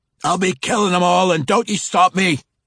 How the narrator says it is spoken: the dwarf hollered

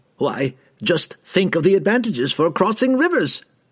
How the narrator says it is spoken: the robed man cried

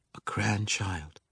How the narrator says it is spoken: she whispered under her breath

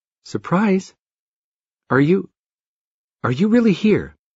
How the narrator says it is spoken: In a timid voice, she said

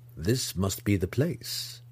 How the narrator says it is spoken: Zack muttered under his breath

